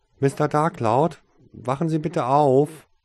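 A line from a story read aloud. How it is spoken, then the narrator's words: Calling loudly. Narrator (German): rief er dabei laut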